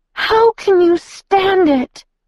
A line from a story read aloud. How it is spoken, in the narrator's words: the girl groaned in a high, clear voice